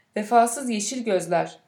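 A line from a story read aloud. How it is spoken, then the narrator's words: Crying out together. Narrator (Turkish): diye haykırdılar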